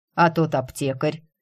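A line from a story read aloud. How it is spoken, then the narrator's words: Overly cold question. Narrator (Russian): как-то излишне холодно уточнил Эриан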